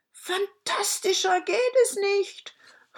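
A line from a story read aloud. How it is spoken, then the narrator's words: King calling out. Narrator (German): rief der König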